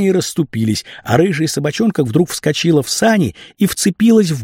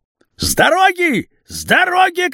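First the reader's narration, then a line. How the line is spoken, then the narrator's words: Shouting. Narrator (Russian): кричал обрез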